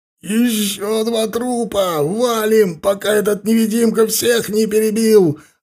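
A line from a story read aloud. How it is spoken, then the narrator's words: Hysterical shout. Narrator (Russian): заорал кто-то с истерическими нотками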